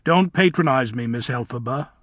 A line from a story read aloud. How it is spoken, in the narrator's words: said Bach sternly